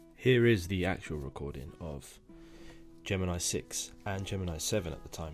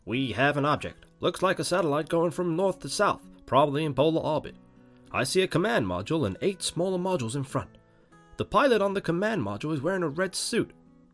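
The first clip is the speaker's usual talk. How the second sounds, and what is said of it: Bad put-on American accent. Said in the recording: “my really bad American accent”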